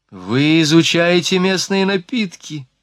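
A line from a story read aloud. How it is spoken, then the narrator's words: Joyful finish. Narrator (Russian): радостно докончила Марианна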